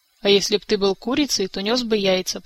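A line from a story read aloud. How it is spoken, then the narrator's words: Grumbled. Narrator (Russian): проворчал Кантор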